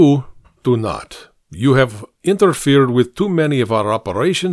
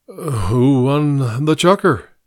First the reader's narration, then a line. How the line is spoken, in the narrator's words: mumbled